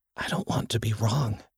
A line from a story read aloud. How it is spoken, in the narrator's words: whispered